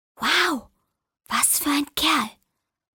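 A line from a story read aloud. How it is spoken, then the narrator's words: Girl whispering. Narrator (German): flüsterte das Mädchen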